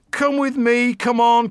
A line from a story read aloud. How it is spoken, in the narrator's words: cried Mr